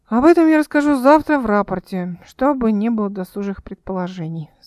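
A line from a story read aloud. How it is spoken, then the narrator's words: Sighing. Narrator (Russian): вздохнула Эл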